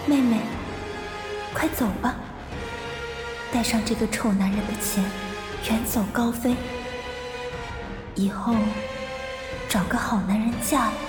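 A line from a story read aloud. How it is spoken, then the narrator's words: Gentle. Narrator (Chinese): 木木柔声道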